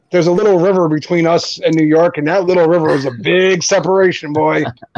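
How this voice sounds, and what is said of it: New Jersey accent. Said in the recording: “To me, you're like a New Yorker ... I have that bad of a Jersey accent?”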